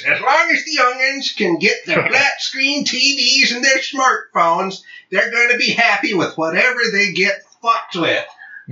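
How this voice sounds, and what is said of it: Grumpy old man voice. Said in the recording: “put on my codger voice.”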